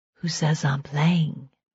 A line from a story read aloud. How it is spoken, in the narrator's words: she whispered